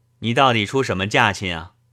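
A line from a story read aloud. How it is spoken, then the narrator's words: Plain. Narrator (Chinese): 德全道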